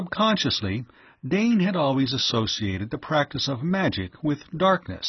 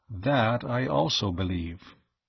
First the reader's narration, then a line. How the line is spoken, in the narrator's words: Tao returned quietly